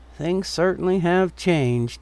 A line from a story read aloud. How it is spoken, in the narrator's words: he mumbled to himself